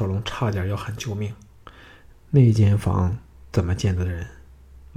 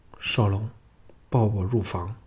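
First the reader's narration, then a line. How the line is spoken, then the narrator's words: Low, intimate murmur. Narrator (Chinese): 平原夫人平静了点咬着他的耳轮，低声说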